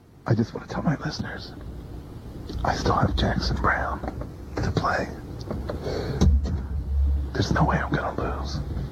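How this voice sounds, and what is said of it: Soft whispering voice. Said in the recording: “Are you doing your soft persona now? ... This is me just whispering to my listeners.”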